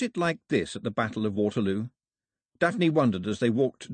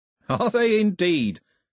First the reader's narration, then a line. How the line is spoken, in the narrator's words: said Cox cheerfully